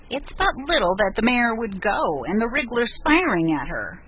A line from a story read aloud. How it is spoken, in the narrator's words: grumbled Betty from under her blankets